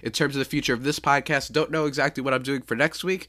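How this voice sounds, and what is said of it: Sick-sounding, congested voice. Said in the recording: “Sorry for my voice ... I'm just feeling a little bit sick ... this like nasal spray thing, and it's just been killing me all morning”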